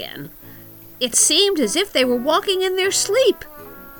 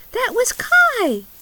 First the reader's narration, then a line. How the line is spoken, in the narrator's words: cried Gerda with delight